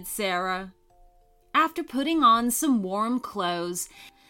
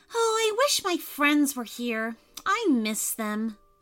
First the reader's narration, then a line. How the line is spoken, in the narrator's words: sighed Sarah